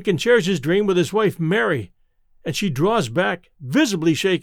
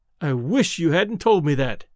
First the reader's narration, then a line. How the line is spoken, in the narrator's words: she cries